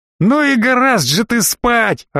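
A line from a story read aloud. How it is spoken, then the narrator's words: Yelling right in ear. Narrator (Russian): орал мне в самое ухо Леха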